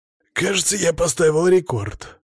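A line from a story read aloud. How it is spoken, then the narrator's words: Wheezy rasp. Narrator (Russian): просипел я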